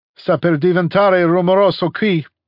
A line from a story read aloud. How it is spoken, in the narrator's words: he shouted